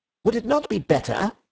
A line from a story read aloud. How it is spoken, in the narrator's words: he said a little sharply